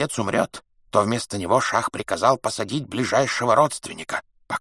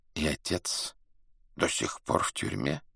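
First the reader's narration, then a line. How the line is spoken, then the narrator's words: Quiet question. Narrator (Russian): тихо спросил дервиш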